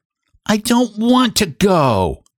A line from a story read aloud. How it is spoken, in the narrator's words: whined the child